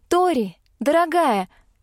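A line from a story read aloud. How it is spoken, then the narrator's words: Loud but affectionate call. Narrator (Russian): позвала я громко, но ласково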